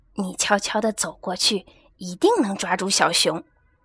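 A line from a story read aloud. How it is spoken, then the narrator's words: Mother bear speaking softly. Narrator (Chinese): 熊妈妈小声地说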